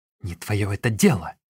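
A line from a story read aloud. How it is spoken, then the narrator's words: Angry retort. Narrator (Russian): сердито бросила ей дочь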